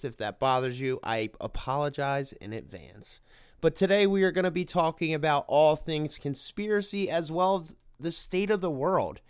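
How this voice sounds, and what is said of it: Sick-sounding voice. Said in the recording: “I am extremely sick, because that might bother some people audio-wise ... I am very sick ... You'll probably hear it in my voice.”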